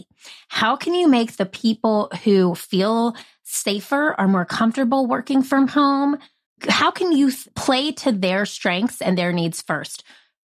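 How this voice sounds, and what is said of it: Nasal Southern-Midwestern twang. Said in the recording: “I'm half Southern, half Midwestern. That's why I have this nasal twang. I say I'm like Fran Drescher on a farm”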